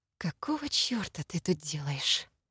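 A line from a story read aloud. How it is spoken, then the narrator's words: Very quiet, furious. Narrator (Russian): спросила очень тихо, но при этом максимально зло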